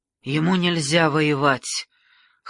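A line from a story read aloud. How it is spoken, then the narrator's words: Hoarse old woman. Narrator (Russian): хрипло произнесла с подушек бабушка короля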